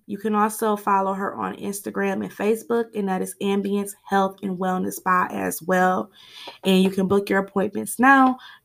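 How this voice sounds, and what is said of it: Slightly scratchy, off-sounding voice. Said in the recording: “my voice sounds a little off. My allergies have been acting up, so my voice is a little scraggly.”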